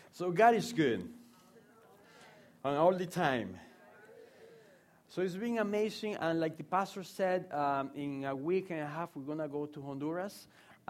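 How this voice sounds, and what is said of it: Speaks with an accent. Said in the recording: “you have to get used to my accent.”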